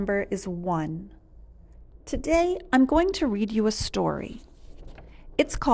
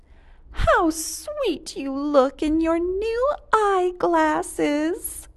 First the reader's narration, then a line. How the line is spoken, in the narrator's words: cooed Mrs